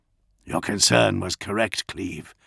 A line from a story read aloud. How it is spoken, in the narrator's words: Dolor said grimly